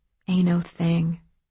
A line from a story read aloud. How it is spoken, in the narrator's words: one of the girls whispered